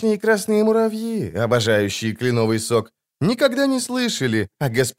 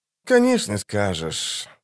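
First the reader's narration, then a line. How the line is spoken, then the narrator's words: Sighing. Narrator (Russian): вздохнул эльф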